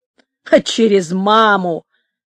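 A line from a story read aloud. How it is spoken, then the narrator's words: Snort. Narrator (Russian): фыркнул Стахович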